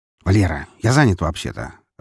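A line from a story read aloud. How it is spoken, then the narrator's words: Irritated grumble. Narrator (Russian): раздраженно проворчал Громов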